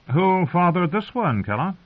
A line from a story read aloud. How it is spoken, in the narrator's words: The fat woman laughed